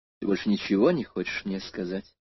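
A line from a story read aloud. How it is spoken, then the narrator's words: Calm question. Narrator (Russian): спокойно спросила Наташа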